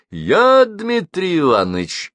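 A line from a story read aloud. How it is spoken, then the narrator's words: Joyful reply. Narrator (Russian): радостно откликнулся гость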